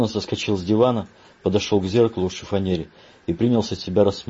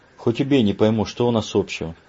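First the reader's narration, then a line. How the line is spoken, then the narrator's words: Sighed. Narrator (Russian): Грант вздохнул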